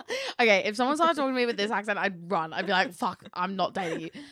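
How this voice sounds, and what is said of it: Usual voice. Nothing is said of it.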